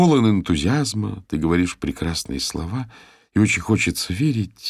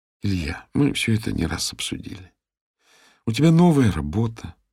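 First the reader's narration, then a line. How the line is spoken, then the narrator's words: Tired voice. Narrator (Russian): продолжила Ира усталым голосом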